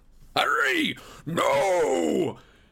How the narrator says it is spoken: a voice yelled

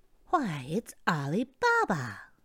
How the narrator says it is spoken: Scrooge exclaimed in ecstasy

